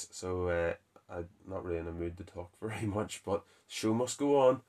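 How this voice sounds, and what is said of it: Sick-sounding, dry-throated voice. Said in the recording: “I'm a little bit under the weather, as you can probably hear in my voice ... my throat dries out”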